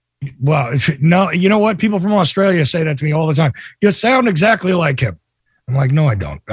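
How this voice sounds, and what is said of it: Raspy voice, New Jersey accent. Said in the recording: “I'm sick today, actually ... You're missing the regional accent here. Okay? Definitely from Jersey ... also lived in New York, so you can hear all that ... I'm always raspy”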